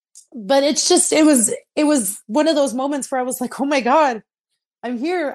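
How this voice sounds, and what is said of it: Emotional, tearful voice. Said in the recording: “sorry i'm getting emotional no. i'm so emotional right now”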